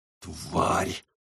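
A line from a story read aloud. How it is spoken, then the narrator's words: Hissed. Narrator (Russian): прошипел Карл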